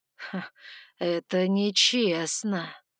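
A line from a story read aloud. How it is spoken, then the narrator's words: Drawled. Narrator (Russian): протянул он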